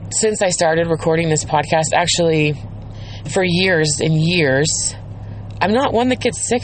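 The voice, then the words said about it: Scratchy, slightly sick voice. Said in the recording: “you could probably tell that I'm a little bit sick, that my voice is a little bit scratchy”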